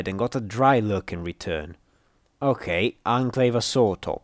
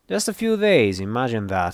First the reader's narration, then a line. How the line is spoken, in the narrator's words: she replied dryly